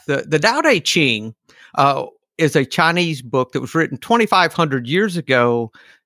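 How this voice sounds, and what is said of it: Southern Georgia accent. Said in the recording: “Southern Georgia accent”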